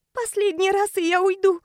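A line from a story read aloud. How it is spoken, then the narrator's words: Tearful whisper. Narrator (Russian): Шепчу сквозь слезы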